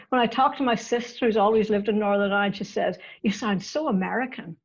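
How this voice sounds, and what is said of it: Northern Irish accent. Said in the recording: “your beautiful accent ... I grew up in Northern Ireland and I still have the accent to prove it.”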